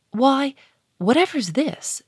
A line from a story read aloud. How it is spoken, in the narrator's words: she cried